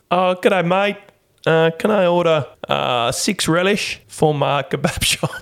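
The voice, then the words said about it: Deliberately bad put-on accent. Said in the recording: “That's a really bad accent.”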